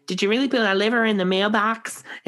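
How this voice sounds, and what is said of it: Weird, funny put-on accent. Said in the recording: “that was a weird accent, don't judge ... Never heard you do that before ... he puts on a funny accent ... It was good. It was quite like his ... it's just such a weird accent”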